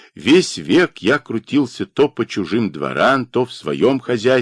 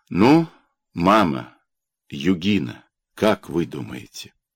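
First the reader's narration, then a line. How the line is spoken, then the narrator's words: Quiet but steady. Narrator (Russian): Дакия проговорила тихо, но без запинки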